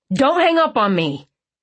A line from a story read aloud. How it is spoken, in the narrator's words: he snapped